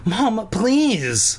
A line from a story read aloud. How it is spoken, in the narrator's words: Cole cried